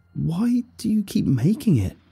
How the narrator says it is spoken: cried, tears finally overflowing

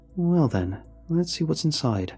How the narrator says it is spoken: I replied, keeping my voice neutral

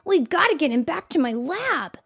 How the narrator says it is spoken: Tails said urgently

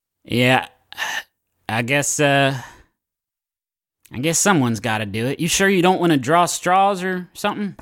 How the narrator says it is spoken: Mama sees your packed up bag and she sighs, and then she looks at you and she says

